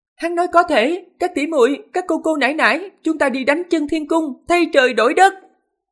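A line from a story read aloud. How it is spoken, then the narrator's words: Loud rallying woman's voice. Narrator (Vietnamese): Một ánh tuyết quay đầu, nàng phất tay với các tỷ muội Lôi Sơn Thành, lớn tiếng nói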